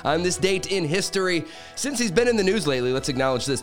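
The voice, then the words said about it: Raspy voice, announcer-style delivery. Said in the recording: “My voice is a little raspy this morning, so I thought I'd try my announcer thing.”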